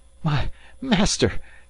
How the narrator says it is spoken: gasped Passepartout

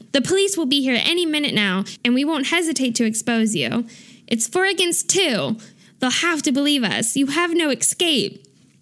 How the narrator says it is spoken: They all start shouting

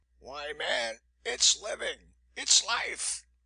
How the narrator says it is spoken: he cried

